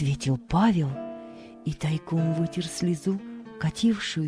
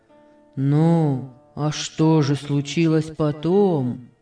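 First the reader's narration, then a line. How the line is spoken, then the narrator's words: Plain. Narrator (Russian): спросил Павел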